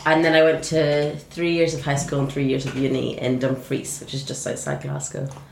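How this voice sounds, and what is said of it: Northern Irish Scottish accent. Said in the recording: “Scottish connections ... lovely sort of honey glaze ... sounded a little bit Northern Ireland”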